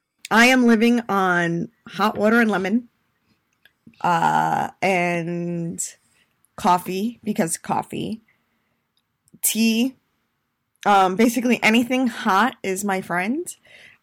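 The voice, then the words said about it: Scratchy, hoarse voice. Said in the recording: “my voice will go in and out. As you can hear, my voice is really kind of scratchy still”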